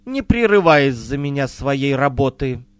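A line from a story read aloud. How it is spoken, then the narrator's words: Plain. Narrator (Russian): сказала Вайнти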